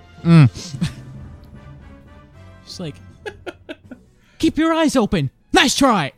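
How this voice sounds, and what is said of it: Imitates video game character voices. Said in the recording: “I learned Marth and Ike's voice... Those are some baller impressions”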